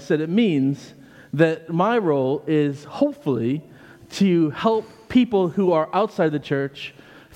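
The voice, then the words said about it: American accent. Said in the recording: “But you don't sound British. ... I'm not British. I'm American.”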